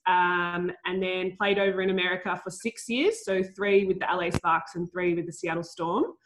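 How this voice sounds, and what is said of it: Australian accent. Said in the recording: “Obviously, you can tell my accent. I'm in Australia at the moment. So I grew up playing in Australia”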